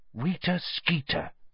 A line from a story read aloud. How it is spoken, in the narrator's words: muttered finally